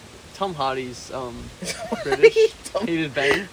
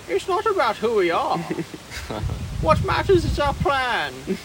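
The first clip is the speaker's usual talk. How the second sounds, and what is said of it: Imitates Bane's voice. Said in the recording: “Is that a good Bane impression?”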